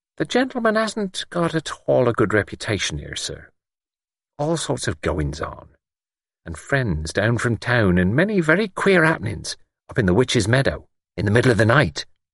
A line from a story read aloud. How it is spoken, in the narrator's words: Church said smoothly